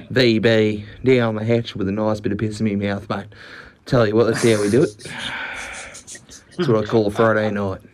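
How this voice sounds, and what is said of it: Exaggerated Australian accent. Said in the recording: “that was a great Australian accent.”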